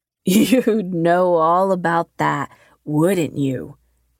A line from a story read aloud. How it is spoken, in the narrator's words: Dan laughed maniacally